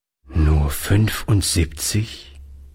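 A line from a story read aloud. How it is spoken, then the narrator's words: Sad old man. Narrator (German): wiederholte der Alte traurig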